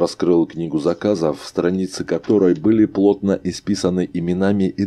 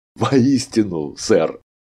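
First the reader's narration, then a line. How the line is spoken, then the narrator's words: Laughing. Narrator (Russian): рассмеялся Арнольд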